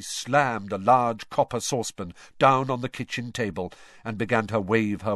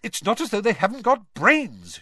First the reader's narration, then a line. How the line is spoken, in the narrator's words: continued irritably